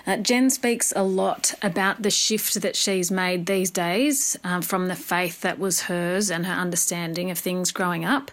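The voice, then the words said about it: Australian accent. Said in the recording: “We've loved that accent entirely. ... needs to start a podcast so we can just hear her voice”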